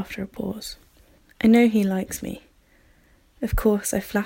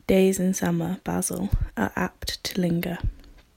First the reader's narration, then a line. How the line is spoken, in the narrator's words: murmured Lord Henry